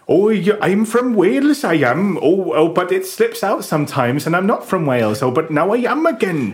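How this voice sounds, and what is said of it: Bad, slipping Welsh accent. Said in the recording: “bad accents ... It's a bit Postman Pat, isn't it? ... It's like nothing on earth.”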